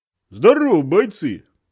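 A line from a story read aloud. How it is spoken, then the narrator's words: Cheerful bark. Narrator (Russian): бодро гаркнул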